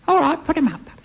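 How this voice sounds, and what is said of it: Tiny child's voice. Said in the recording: “a tiny little voice comes from below the counter ... that's why I was trying to impersonate”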